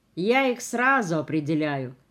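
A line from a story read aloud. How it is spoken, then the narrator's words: Driver continuing, snorting. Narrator (Russian): продолжал шофер и хмыкнул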